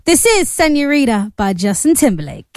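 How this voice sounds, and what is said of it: Put-on American accent. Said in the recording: “I suddenly put on like an American accent”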